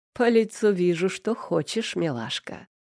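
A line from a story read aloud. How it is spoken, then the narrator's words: Chuckling. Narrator (Russian): хохотнул он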